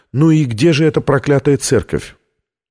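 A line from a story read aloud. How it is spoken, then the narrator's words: Asking after deep sigh. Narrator (Russian): Витория глубоко вздохнула и спросила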